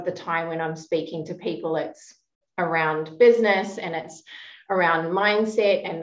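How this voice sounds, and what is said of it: New Zealand accent with Australian blend. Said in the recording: “I was born and raised in New Zealand to give people some context for my interesting accent that is now blended with a little bit of Australian”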